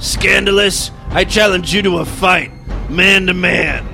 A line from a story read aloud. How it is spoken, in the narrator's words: Harvey grumbled